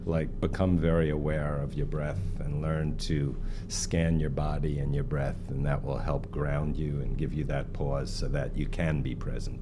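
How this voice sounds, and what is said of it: Slight New York accent. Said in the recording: “The little New York accent that comes through”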